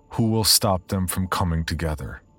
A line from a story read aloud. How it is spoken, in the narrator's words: In a clear, commanding voice, ask